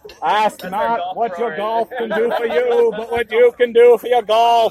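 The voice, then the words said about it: JFK impression. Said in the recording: “some JFK impressions ... Still pretty good ... probably as good as mine”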